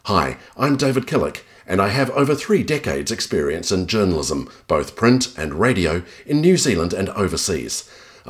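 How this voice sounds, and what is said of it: Slightly British, international accent. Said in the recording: “I have a slightly British accent, or really it's more international.”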